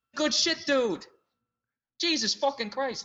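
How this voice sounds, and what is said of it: Impression sounding like Bill Burr. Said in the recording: “if I try to do you, it ends up coming off exactly like Bill Burr”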